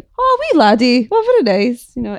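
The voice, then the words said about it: Put-on Irish accent. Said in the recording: “in an Irish accent, obviously”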